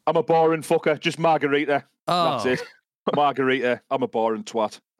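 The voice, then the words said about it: Loud, angry-sounding accent. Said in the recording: “I think I've got quite an angry voice, like loud ... your accent definitely lends itself to anger ... I sound angry ordering a fucking pizza.”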